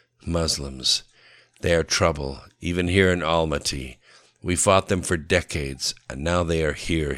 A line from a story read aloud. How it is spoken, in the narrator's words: he grunted